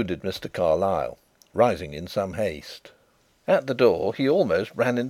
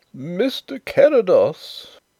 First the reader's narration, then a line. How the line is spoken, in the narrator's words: wailed the poor old gentleman in a tremulous bleat